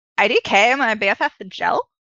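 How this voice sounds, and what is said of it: Valley Girl voice impression. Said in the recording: “a good impression ... I have a bit of a Valley Girl ability.”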